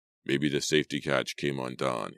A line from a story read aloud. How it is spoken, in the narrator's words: he murmured